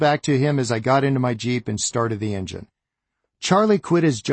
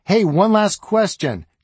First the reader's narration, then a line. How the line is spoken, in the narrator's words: Charlie shouted to me